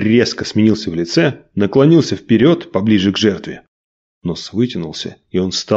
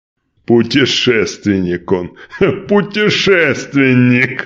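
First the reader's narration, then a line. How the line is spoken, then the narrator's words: Loud laughing tsar. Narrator (Russian): Громко рассмеялся царь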